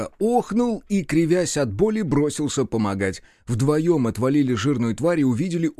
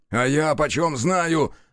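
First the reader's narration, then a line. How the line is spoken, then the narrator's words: Snapping retort. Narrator (Russian): огрызнулся Бучило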